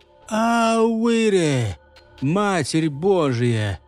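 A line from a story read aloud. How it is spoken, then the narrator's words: Wheezing. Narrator (Russian): пришелец просипел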